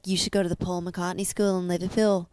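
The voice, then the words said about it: Imitated Liverpool accent. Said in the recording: “Good is her accent? ... Oh, it's so good. Keep talking in it.”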